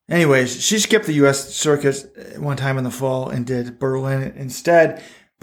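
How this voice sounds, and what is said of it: Texas accent. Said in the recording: “Texas accent”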